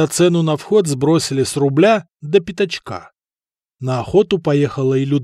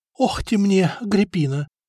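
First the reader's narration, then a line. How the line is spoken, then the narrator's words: Whispered. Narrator (Russian): шептала лучшей подруге и заодно ненавистной сопернице Эльфрида, Лотарова жена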